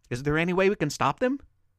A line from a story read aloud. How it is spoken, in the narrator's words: Beverly asked